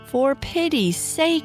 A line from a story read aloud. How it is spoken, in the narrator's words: she cried